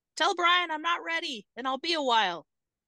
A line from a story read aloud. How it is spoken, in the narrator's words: Paul shouted